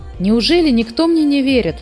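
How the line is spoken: Exclaimed. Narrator (Russian): воскликнул Муми-тролль

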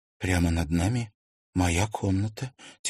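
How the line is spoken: Quiet. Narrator (Russian): тихо проговорила она

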